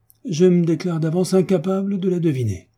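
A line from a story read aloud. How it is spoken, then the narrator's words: Exclaimed. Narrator (French): s'écria le baron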